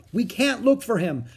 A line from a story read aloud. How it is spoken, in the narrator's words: shouted Jack